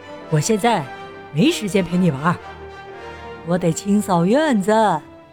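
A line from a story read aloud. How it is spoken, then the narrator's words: Laughing. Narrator (Chinese): 弗瑞德笑着说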